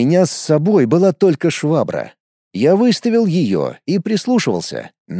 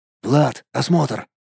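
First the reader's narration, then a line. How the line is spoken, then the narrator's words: Whispering. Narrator (Russian): прошептал я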